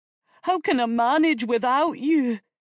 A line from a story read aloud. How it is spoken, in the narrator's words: He pleaded